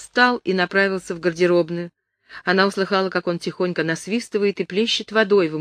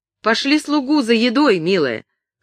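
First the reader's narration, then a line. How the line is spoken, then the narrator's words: Shout. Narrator (Russian): крикнул он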